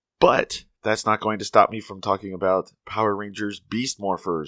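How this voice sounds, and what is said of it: Slightly off, sick-sounding voice. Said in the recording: “I have the mid autumn crud, so my voice is a little funny.”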